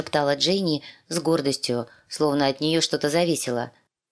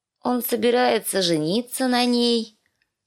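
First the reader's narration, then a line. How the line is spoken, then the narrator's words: Sleepy child announcing. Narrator (Russian): Сонным голосом объявила кроха Бет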